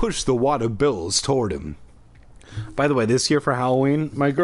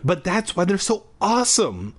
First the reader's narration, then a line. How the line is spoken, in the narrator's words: exclaimed